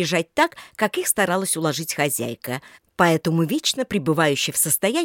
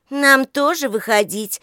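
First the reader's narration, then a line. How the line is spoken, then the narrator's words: Displeased question. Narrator (Russian): недовольным тоном спросила Лика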